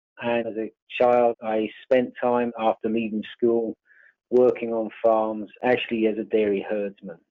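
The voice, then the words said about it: English accent. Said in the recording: “my accent, which is from the UK... my accent is actually English”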